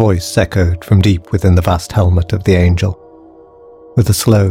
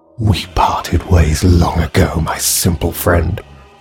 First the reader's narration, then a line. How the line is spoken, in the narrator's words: hissed the girl